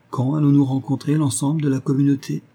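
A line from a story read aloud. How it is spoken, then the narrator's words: Plain question. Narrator (French): demanda-t-elle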